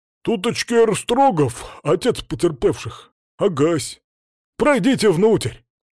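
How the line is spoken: Deep bass voice. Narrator (Russian): Городовой пробасил

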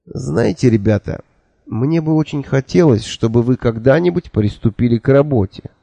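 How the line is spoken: Quiet but forceful. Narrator (Russian): тихо, но внушительно сказал я

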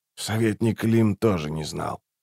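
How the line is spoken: Said quietly. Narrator (Russian): тихо сказал Раллик

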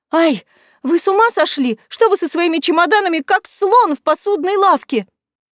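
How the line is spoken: Startled cry. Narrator (Russian): вскрикнула она

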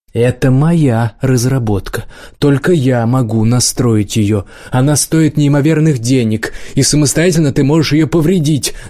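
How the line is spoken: Shouting. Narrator (Russian): закричал Кача

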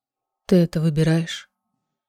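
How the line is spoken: Barely audible question. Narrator (Russian): Едва слышно спросил Ларкан

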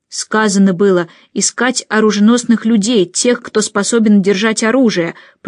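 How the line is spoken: Growled. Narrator (Russian): прорычал один из облаченных в мундир

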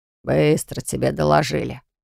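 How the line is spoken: Grumbling father. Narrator (Russian): проворчал отец Наяны

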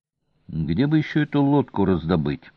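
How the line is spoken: Gloomy. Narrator (Russian): мрачно произнес Олис

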